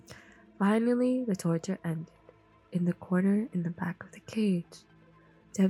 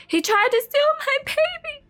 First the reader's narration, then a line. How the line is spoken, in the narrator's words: the woman cried